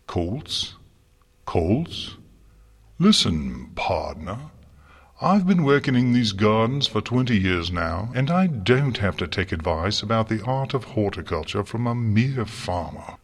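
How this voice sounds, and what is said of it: Snooty snarling thick posh accent. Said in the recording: “snarled back a snooty voice. His thick Canterlot accent made "years" sound like "hears," as if he yawned out his words.”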